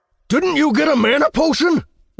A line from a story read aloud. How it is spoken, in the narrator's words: I cried